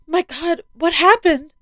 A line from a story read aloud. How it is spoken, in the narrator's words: could barely squeeze a word out in between sobs